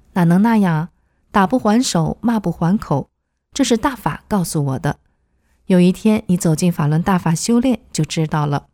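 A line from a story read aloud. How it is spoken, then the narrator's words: Smiling. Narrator (Chinese): 李东笑了笑说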